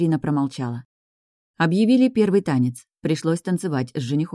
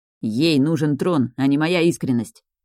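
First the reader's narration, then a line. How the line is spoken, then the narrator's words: Grumbling. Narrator (Russian): проворчал Джошуа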